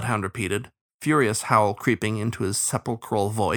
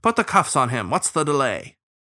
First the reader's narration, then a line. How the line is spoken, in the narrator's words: the starling snapped